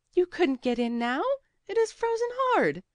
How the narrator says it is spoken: said the girl, laughing

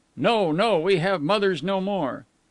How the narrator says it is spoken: all the voices cried

